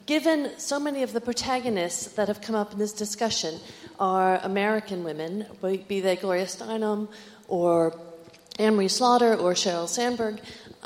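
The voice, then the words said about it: North American accent. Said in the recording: “this is a North American accent”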